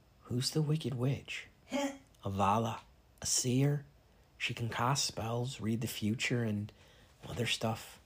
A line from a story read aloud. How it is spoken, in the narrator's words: I murmured to Sam